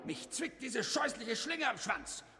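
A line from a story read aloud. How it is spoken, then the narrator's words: Growling wolf. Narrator (German): knurrte der Wolf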